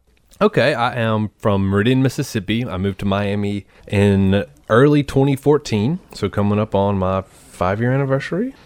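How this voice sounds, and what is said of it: Southern American accent. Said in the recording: “you all will hear his accent. Y'all will hear his accent ... So this is a Southern show today”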